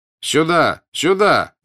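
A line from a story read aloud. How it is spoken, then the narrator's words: Shouting from a window. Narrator (Russian): кричал ему француз из окна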